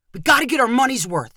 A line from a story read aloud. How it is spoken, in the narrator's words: Twigs said excitedly